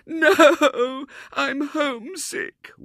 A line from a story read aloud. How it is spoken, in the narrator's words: wailed the little girl